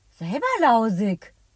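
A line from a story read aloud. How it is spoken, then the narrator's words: Calling out. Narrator (German): ruft Elliot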